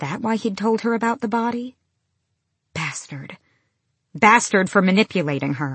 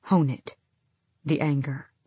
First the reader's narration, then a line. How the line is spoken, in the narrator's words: Rowan murmured